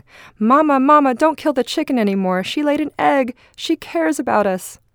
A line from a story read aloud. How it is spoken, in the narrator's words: ran shouting